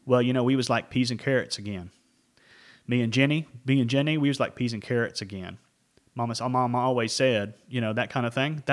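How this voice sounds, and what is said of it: Put-on Southern accent. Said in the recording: “I'm going to put up a Southern accent like this ... That's a Southern accent.”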